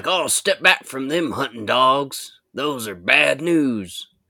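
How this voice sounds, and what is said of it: Put-on cowboy accent. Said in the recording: “I don't know why they have a cowboy accent.”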